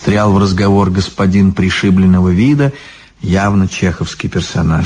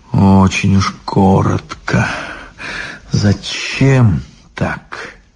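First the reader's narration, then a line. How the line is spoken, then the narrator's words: Quiet laugh. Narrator (Russian): Обломов тихо засмеялся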